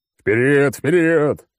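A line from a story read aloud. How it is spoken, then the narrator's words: Roaring. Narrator (Russian): взревел клоун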